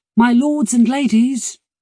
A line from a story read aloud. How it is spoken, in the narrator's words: she cried